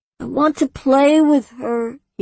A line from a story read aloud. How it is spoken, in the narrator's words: he whined